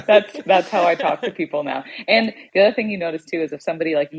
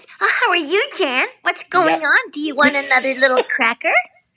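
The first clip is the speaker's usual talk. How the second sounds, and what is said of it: Cooing baby-talk voice. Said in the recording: “baby voice ... Baby voice.”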